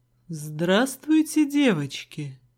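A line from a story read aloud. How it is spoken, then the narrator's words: Velvety greeting. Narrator (Russian): Поздоровался мой бывший своим бархатным голосом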